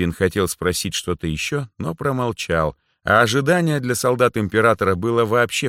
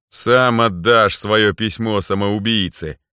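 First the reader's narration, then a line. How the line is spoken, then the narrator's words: Chuckle inside the head. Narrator (Russian): хохотнул у меня в голове Зер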